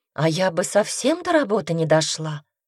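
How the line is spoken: Sighing, mother. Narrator (Russian): вздохнула мама

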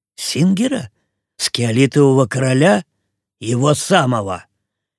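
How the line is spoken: Growl in own language. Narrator (Russian): Кит что-то прорычал на своем языке

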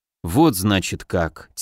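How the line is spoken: Quiet. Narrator (Russian): тихо произнес я

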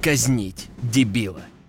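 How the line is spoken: Growling, emperor. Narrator (Russian): рыкнул император

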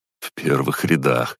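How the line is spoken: Wry snort. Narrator (Russian): хмыкнул я

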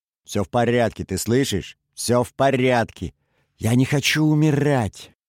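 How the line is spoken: Shouting. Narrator (Russian): Он кричал

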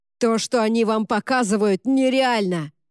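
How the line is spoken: Roar. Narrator (Russian): взревел он

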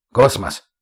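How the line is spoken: Sharp. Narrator (Russian): резко сказал глава лагеря

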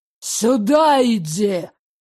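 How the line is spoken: Growled. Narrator (Russian): зарычал Ирик

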